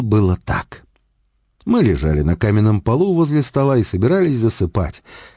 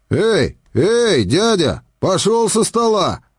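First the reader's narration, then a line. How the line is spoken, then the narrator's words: Sleepy soldier shouting. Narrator (Russian): закричал сонный красноармеец железнодорожной охраны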